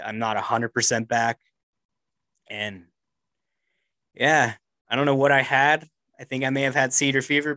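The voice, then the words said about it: Voice still sounds sick. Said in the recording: “I got super fucking sick ... You guys can still probably hear it in my voice a little bit.”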